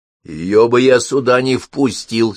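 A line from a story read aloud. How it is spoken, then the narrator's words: Angry hearth. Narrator (Russian): сердито отозвался очаг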